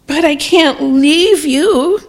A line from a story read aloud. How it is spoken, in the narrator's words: cried the little brother